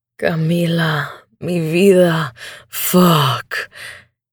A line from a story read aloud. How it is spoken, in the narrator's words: he growls